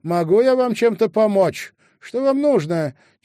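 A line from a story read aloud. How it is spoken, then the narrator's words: Shouted. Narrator (Russian): она крикнула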